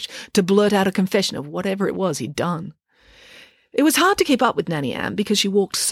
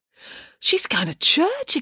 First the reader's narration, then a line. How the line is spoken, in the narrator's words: exclaimed Derek